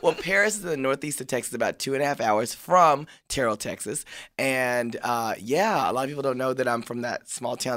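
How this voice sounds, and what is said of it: Country Texas accent. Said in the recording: “this accent is country. As hell from Texas.”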